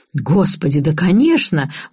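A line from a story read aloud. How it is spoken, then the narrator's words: Exclamation. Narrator (Russian): воскликнула Шляхтина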